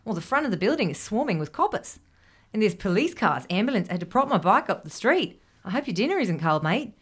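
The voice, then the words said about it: Put-on accent for a character. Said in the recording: “Excellent accent.”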